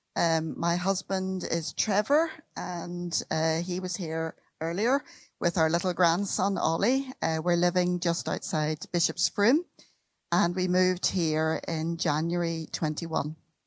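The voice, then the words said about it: Northern Irish accent. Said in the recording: “You've probably already recognized the accent. I come from Northern Ireland.”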